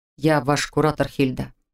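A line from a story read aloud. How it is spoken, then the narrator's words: Even, level tone. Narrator (Russian): напомнил он ровным тоном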